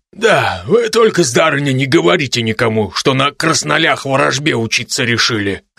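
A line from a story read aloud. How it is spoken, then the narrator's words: Wry snort, tall man. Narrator (Russian): хмыкнул высокий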